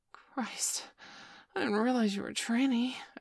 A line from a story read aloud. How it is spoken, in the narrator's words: I gasped